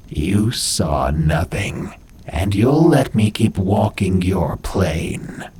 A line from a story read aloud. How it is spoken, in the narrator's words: she uttered in that horrifying voice